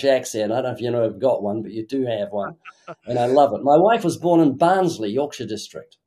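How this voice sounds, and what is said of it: New Zealand accent. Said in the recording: “we love your New Zealand accent”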